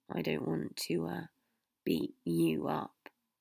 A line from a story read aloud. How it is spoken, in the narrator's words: Harry muttered